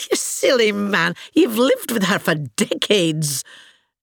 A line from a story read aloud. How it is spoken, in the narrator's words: laughed and said